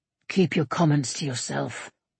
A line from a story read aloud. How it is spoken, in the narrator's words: Eivind growled